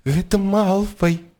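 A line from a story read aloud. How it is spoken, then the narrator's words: Trembling voice. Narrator (Belarusian): Дрыготкім голасам сказаў Невіл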